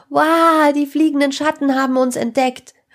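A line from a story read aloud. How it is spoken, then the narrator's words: Loud shout. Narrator (German): rief Sarah laut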